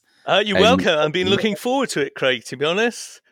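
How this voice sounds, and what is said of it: Welsh accent. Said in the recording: “a Welshman, as I'm sure you will hear with his accent.”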